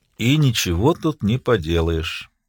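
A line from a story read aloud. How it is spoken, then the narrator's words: Sad. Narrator (Russian): печально сказал Микешин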